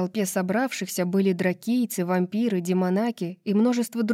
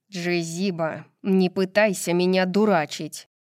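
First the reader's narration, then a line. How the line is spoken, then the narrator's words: Sharp reply. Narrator (Russian): резко ответил ей астроном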